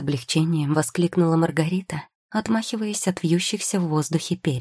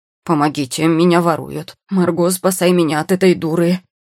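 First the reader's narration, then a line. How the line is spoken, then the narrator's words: Roaring raven. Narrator (Russian): взревел ворон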